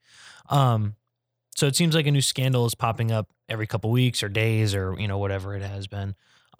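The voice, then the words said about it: Rough, strained voice. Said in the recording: “sorry about my voice, by the way, I've been coughing my head off all day.”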